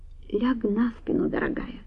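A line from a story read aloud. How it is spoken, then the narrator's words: Quiet command. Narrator (Russian): тихо велел он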